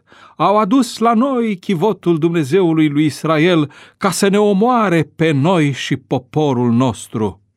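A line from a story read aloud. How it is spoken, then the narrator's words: Crowd crying out. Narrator (Romanian): ecroniții au strigat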